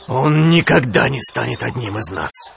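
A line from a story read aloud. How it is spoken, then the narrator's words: Growling. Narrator (Russian): прорычал он Кале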